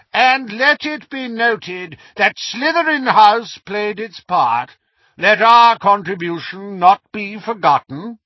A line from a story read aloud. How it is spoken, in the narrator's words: Phineas Nigellus called in his high, reedy voice